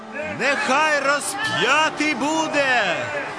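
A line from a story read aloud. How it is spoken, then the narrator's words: Crowd shouting. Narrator (Ukrainian): Усі закричали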